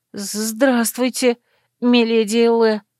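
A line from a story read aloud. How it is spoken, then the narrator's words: Breathless, nervous. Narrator (Russian): выдохнула я, унимая колотящееся сердце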